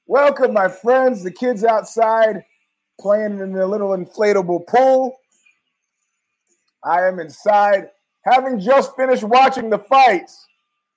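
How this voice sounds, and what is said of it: Hoarse voice. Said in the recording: “My voice is kind of hoarse.”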